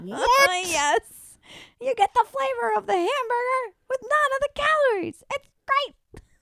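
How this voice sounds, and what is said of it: Bad Regis Philbin impression. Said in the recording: “my Regis impression ... Terrible.”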